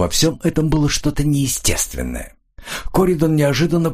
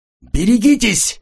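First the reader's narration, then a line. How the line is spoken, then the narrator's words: Shout. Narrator (Russian): закричал Коридон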